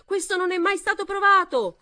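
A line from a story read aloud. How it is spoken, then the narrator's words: Girl shouting. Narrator (Italian): urlò una voce di ragazza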